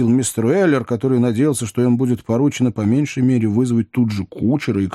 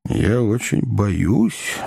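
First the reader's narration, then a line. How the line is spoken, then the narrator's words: Muttered to himself. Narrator (Russian): бормотал про себя Сэм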